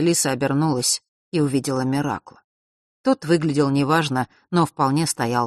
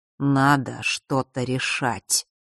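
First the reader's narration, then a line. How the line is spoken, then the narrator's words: Quiet. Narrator (Russian): так же тихо сказал ему отец Василисы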